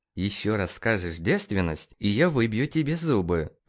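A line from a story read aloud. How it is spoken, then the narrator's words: Through gritted teeth. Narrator (Russian): процедил Нейт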